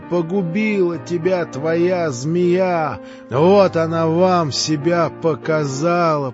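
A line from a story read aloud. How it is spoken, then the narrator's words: Shouting, shaking with rage. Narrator (Russian): прокричала она, сотрясаясь от злобы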